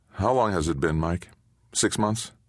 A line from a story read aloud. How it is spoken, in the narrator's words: Keeping his voice steady, Cochran asked